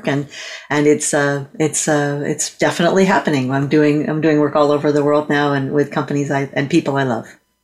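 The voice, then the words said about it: American accent. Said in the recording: “normally I'm in Chicago and Illinois ... everybody thinks my accent is adorable”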